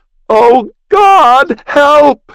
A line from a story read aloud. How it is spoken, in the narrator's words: She wailed